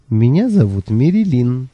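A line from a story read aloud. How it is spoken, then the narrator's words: Cheerful laughter. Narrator (Russian): весело рассмеялся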